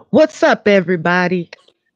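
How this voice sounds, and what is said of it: Imitation of YouTuber 1090 Jake. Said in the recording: “That is my imitation of one of the newest YouTubers that I'm obsessed with, 1090 Jake ... he starts up every episode like that”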